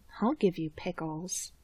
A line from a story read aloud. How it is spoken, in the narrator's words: Sid mutters nonsensically